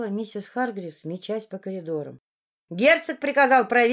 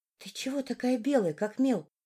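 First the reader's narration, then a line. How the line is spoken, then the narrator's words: Maid's whisper. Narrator (Russian): прошептала горничная Сара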